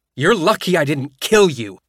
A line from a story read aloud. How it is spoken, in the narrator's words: I shouted at him